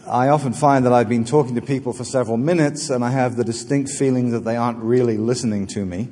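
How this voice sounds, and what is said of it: English-Australian accent. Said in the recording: “my English-Australian heritage... Some of you will have noticed very quickly that I have an accent.”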